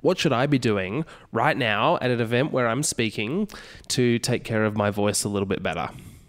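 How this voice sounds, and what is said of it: Slightly congested voice. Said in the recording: “I don't know if you can hear my voice. ... I've got a little bit of a cold”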